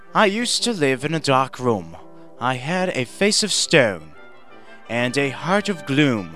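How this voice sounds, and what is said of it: Stuffy, fancy put-on British accent. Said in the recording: “British accent ... Are you going to do a British accent? ... Well, it's going to be real stuffy. ... stuffy and fancy”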